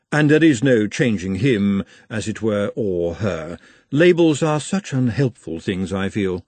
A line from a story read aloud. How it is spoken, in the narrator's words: said Madame calmly